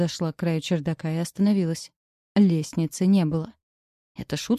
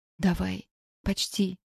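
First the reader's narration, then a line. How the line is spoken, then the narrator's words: Whispered. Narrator (Russian): прошептала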